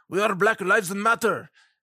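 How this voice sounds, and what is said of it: Deliberately bad put-on accent. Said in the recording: “sorry about the horrible, horrible accent impersonation.”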